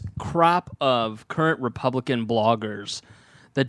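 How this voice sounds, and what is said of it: Usual voice. Nothing is said of it.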